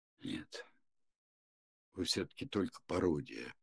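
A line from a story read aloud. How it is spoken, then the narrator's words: Whispered. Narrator (Russian): прошептал Цинциннат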